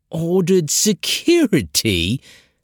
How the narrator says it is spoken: Bragan sneered

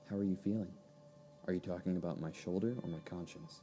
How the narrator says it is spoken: as if feeling a degree of remorse, the girl said softly

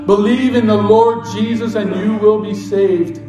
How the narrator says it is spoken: John Harper called out

